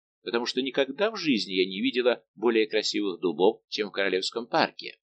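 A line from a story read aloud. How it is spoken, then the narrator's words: Perfectly calm woman's voice. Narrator (Russian): совершенно спокойным тоном сказала принцесса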